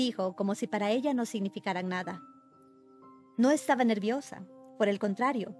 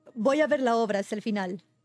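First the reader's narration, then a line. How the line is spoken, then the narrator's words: Bitter young man's reply. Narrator (Spanish): contestó el joven con tono amargo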